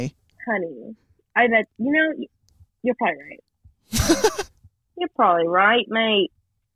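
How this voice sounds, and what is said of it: Put-on British accent. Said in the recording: “Ada's not going to like this accent. ... I keep trying to stop and it's not working. ... you're just going to be talking in British.”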